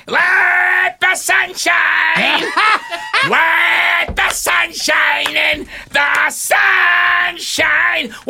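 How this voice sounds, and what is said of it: Sings imitating another person's voice. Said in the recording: “I'm Gilbert Gottfried singing here.”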